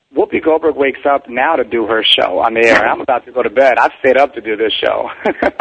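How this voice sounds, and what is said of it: Tired, low early-morning voice. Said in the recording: “I'm just like tired. This is my tired, sexy voice.”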